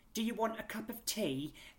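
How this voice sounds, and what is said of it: Put-on American accent. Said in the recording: “it was read by an American woman, and hearing her say like ... that's not a Scouse accent at all”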